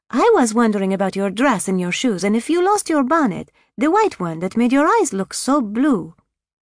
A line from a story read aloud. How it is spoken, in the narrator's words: Leah piped right up